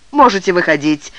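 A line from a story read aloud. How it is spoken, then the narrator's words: Sharp, curt. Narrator (Russian): резко бросил молодой человек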